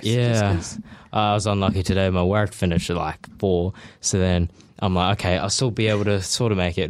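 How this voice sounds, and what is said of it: Slightly out of breath. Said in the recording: “As you can tell, I'm a little bit out of breath.”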